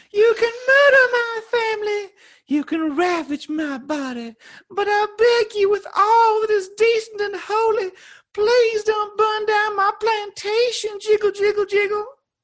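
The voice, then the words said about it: Bad put-on Southern Belle accent. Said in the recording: “her Southern Belle terrible accent”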